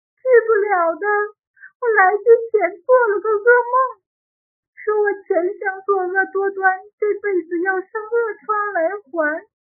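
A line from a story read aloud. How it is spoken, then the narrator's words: Crying. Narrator (Chinese): 英兰哭道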